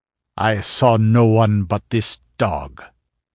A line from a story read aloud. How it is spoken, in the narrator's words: growled Conan